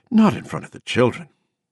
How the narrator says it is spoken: she said a little breathlessly

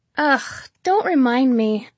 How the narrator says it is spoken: she groaned

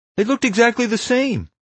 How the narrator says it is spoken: Warren cried

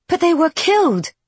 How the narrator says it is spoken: Isby blurts out

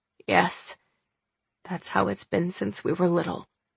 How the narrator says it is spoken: muttered

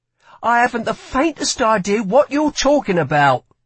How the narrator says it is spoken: snapped Lila

